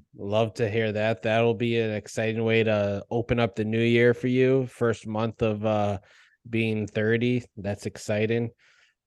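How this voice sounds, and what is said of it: Boston accent, long drawn-out A's. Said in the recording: “Your Boston accent's throwing it out there. It's throwing out the A's a little long.”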